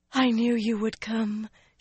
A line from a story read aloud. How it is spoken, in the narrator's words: she breathed